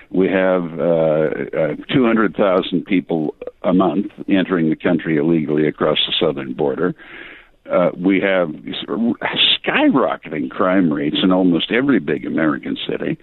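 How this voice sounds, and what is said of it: Heavy English accent. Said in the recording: “my heavy English accent”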